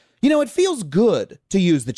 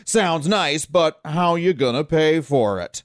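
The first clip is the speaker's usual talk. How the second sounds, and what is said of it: Mock stern cheap dad voice. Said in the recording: “the cheap dad voice”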